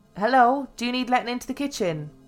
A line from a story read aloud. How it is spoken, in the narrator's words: shouted